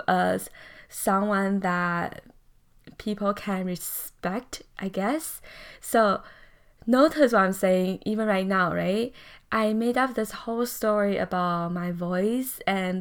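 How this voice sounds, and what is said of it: Calm, slow accented speech. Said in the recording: “they really like my accent and that they enjoy the way I talk. It's very calming. ... they may think that I talk slow”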